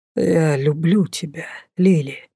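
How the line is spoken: Quiet. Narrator (Russian): тихо сказал

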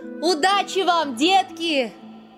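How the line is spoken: Shouting after someone. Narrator (Russian): Мари крикнула им вдогонку

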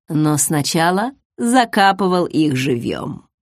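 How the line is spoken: Barely audible mocking snort. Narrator (Russian): Едва слышно, насмешливо фыркнул Хелрой

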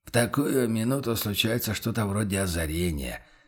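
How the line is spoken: Quiet remark. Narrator (Russian): тихо заметил помощник

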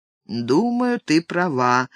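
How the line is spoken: Gloomy mumble. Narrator (Russian): мрачно пробормотал Норман

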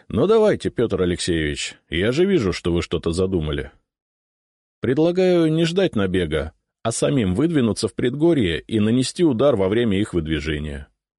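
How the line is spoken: Calm. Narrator (Russian): сказал я спокойно

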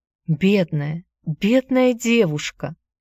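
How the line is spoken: Exclaimed. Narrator (Russian): снова воскликнула Аня

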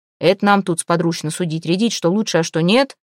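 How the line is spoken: Growl. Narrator (Russian): рыкнул на сотоварищей Претич

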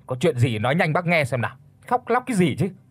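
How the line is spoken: Irritated snapping. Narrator (Vietnamese): Ông Toàn gắt lên

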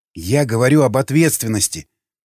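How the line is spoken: Snapping retort. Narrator (Russian): огрызнулся Николай

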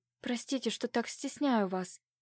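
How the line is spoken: Shy whisper. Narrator (Russian): прошептала, опустив головку

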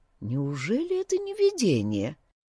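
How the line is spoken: Soft. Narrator (Russian): мягко произнес Хендерсон

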